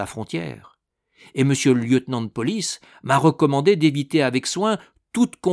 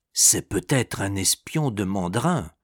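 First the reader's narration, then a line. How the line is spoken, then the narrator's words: Whispered in ear. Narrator (French): murmura Pistolet à l'oreille du fermier général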